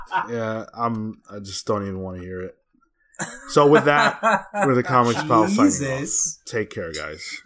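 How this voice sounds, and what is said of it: Impression of a co-host. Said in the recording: “That was my Sean impression at the end.”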